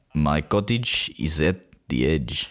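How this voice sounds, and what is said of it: Put-on spy accent. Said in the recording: “Did you like my spy accent there? I actually thought that was quite good.”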